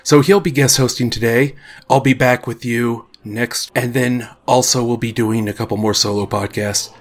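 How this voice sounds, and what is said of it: Voice sounds unwell. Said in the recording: “As you can probably hear from my voice, I've not been feeling very well”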